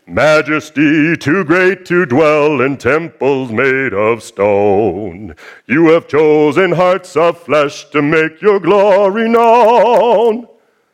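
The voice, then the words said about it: Sings imitating another person's voice. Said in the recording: “That was not my best Paul Wilbur imitation”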